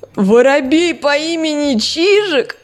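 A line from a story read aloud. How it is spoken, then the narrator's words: Cat laughing. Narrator (Russian): Теперь хохотал кот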